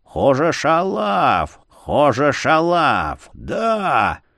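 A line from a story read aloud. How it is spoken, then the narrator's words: Toothless lisping. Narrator (Russian): шепелявил беззубым ртом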